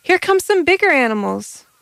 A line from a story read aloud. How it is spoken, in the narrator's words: Roll cried